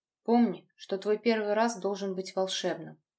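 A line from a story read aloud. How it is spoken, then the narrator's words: Muffled male voice. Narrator (Russian): глухо сказал мужчина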